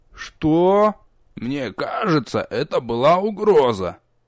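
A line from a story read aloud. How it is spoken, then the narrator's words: Sudden creaky voice. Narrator (Russian): Внезапно проскрипел с порога мастер Ворк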